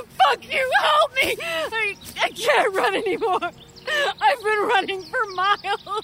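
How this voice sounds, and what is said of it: Gasping, sobbing distressed voice. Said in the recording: “Gasping for air, she sobs.”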